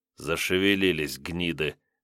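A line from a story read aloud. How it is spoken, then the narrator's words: Mutter. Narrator (Russian): пробормотал Илья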